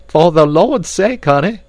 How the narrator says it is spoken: cried Esmeralda

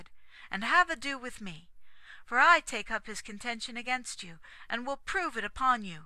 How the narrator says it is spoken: cried

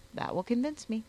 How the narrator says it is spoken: I answered

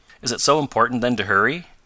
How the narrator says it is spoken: asked Mr

